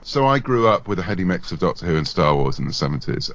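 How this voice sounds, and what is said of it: British accent. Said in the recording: “you probably tell from my accent, I either belong to the Empire or I'm British”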